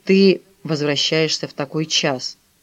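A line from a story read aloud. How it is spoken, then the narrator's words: Confused grumble. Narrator (Russian): придя в замешательство, Филипп проворчал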